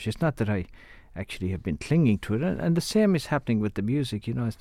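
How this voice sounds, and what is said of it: Irish Clare accent. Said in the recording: “I'm still speaking with a Clare accent ... even with all the years I've lived in America, my accent is still Irish”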